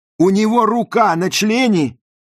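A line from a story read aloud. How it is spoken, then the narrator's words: Shouted back. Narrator (Russian): крикнула в ответ Розали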